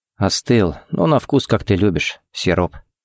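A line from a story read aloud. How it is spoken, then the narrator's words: Quiet remark. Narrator (Russian): заметил тихо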